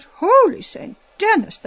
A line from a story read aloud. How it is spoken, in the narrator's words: she cried out